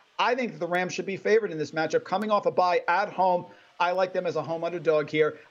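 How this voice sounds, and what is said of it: Tri-state accent. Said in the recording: “it's the tri-state accent.”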